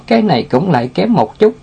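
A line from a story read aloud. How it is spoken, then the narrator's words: Sighing. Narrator (Vietnamese): Tiểu Ngưu thở dài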